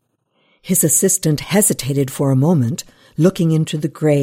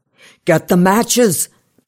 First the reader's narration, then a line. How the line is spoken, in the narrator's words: he shouted at James